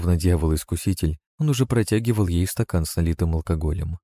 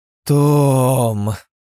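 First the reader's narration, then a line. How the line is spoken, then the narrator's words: Drawn out, mock stern. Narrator (Russian): протянула женщина с напускной строгостью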